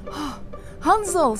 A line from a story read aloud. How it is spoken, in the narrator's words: she shouts, free, we're free at last